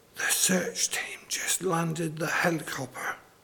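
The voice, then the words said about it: Awed whisper. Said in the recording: “In an awed whispering voice”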